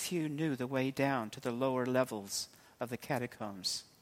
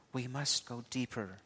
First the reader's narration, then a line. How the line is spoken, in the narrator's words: In a whisper, said